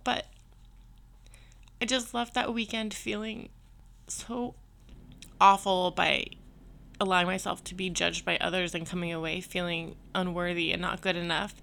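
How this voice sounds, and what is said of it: Emotional, choked-up voice. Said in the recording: “I'm sorry that I'm getting emotional”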